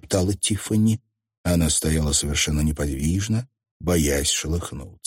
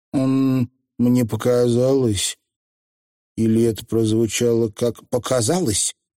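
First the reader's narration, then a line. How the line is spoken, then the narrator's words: Timid cough, then question. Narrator (Russian): Петулия робко кашлянула и спросила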